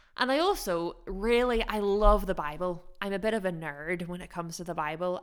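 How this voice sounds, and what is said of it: Mixed American and Northern Irish accent. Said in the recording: “my very strange accent ... whether I sound American or Northern Irish”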